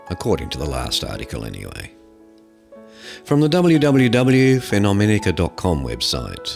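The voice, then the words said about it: Deliberately deeper, sexy-sounding voice. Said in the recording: “read this in a deeper voice to sound a bit more sexy”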